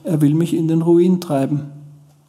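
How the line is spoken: Calm, detached. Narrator (German): sagte er dann ganz ruhig oder sogar unbeteiligt

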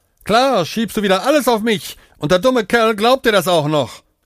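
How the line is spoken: Panting. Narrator (German): keuchte Aman

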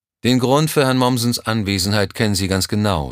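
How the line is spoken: Plain. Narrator (German): sagte

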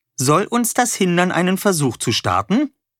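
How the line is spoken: Cheerful. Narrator (German): sagte Wolle fröhlich

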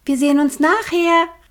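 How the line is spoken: Called out. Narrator (German): rief sie den beiden Vögeln zu

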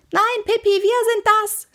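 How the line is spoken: Shouting. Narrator (German): schrie Annika

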